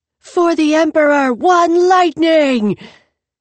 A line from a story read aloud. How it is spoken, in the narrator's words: the woman who'd punched her, so close to the ground car that Mahit could hear everything, shouted